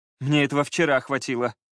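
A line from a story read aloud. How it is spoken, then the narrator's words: Groaning. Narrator (Russian): простонал Скай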